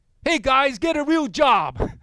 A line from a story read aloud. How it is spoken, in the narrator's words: he yelled